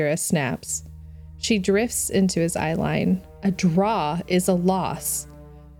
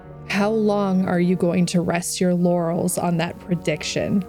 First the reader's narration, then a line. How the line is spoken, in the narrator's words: Saladin groans